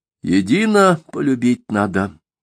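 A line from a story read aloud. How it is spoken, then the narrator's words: Calm but firm. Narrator (Russian): вдруг спокойно, но твердо сказал Аввакум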